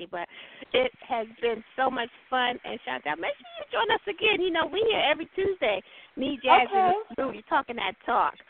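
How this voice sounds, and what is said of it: Slightly scratchy, under-the-weather voice. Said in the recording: “I'm a little under the weather, so my voice is a little scratchy”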